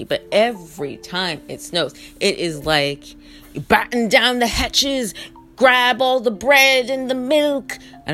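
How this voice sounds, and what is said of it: Fake British accent. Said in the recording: “I don't know why I'm talking with my fake British accent.”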